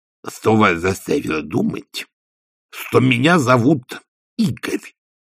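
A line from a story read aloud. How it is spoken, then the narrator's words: Lisping coachman. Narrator (Russian): прошепелявил возница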